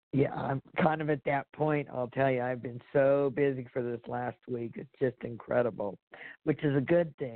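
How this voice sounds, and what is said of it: Strained, fading hoarse voice. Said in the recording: “my voice is just going”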